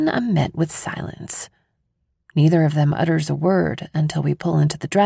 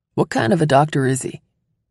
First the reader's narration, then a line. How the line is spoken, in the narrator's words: Dad asks